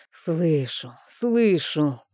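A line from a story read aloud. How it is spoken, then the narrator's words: Muttered through clenched teeth. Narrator (Russian): процедил сквозь зубы я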